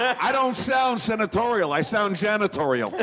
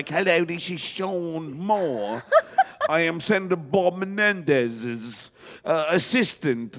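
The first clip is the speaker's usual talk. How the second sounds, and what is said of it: Bad put-on English accent. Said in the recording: “I had this bad English accent. ... That is a bad accent ... there hasn't been a worse English accent”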